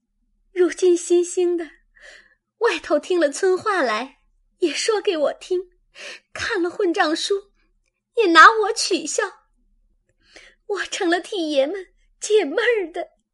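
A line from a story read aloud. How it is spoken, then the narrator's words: Crying. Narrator (Chinese): 黛玉便哭道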